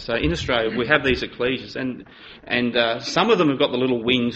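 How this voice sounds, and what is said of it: Australian East Coast lazy drawl. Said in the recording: “I'm from the East Coast and I have a really lazy drawl ... my drawl, that's just me naturally ... I mumbled all the time”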